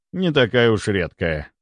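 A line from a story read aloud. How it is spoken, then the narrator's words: Calm reply. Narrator (Russian): спокойно ответил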